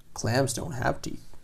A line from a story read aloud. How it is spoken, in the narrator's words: grunted her father